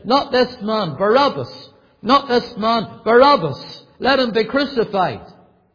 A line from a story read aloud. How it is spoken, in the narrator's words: They cried out incessantly